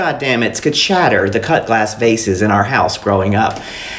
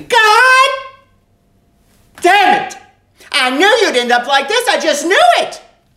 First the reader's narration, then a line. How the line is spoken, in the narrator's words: She would scream